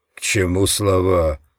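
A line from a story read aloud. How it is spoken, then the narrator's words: Dismissive snort. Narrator (Russian): фыркнул он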